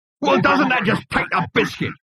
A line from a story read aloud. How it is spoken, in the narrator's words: It roared